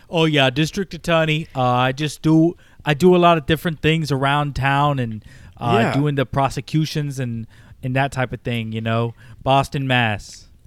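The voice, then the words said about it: Bad put-on Boston accent. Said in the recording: “smarmy attorney guy from Massachusetts ... That was a terrible accent.”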